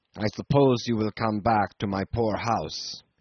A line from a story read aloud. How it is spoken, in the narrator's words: he muttered surlily